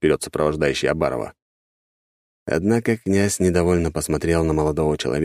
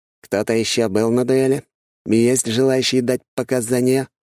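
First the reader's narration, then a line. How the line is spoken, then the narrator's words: Loud question. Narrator (Russian): громко спросил глава шестого отдела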